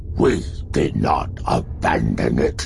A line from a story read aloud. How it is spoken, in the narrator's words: the spokesman said, his voice noticeably deeper